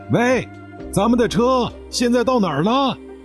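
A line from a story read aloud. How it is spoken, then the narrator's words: Shouting into phone. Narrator (Chinese): 胡志强 快速地接听着喊道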